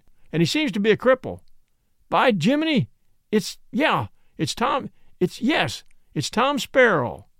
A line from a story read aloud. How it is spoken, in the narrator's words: shouted the captain